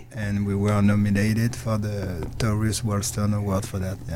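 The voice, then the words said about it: French accent. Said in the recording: “where are you originally from? The accent. I hear the accent. ... I'm French.”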